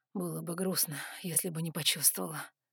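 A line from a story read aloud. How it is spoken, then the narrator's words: Smirking hot breath. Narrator (Russian): усмехнулся он и горячо выдохнул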